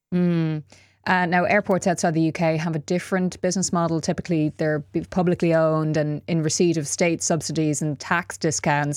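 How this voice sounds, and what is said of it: Irish Dublin accent. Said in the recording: “Dublin Airport, which I'm judging from my accent, you might know that's where I'm from”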